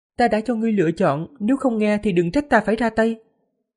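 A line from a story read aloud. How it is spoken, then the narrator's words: Smiling. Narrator (Vietnamese): Diệp Phàm mỉm cười, nói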